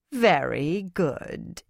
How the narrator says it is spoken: Idrella said sarcastically

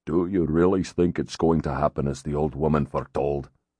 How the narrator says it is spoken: Ronan's brother, Balder, asked softly

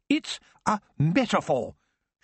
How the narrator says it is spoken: she said sharply

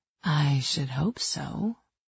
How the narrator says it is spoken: I whispered

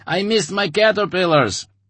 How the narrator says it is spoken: Savelli laughed

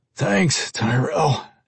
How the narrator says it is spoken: Henry replied in a rough, slightly uneven voice

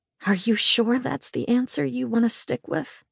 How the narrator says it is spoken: I whispered

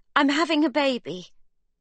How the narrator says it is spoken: Sibby blurts

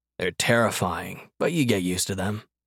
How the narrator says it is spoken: Danny leaned in and murmured

